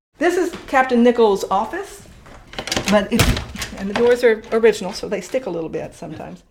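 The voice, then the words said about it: Slight Southern American accent. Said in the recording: “slight southern accent”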